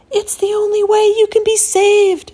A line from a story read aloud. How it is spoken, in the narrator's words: Jonah cried